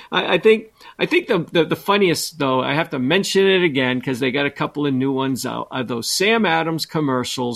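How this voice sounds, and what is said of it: Boston-area accent. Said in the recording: “my dad is from Dorchester ... your accent is most like my Uncle Eddie ... Dorchester is up near Boston ... I talk a little bit like Uncle Eddie”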